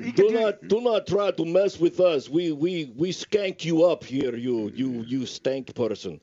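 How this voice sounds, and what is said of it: Put-on foreign accent. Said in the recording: “and his accent. You got the best accents.”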